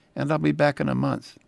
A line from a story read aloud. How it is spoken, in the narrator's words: I followed this quickly with